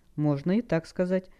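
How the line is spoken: Calm reply. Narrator (Russian): спокойно ответил учитель

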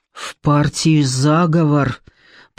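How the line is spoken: Panting mutter. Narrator (Russian): пробормотал Белобородов, тяжело дыша

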